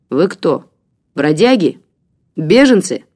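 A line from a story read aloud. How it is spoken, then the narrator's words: Abrupt question. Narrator (Russian): отрывисто спросил он вдруг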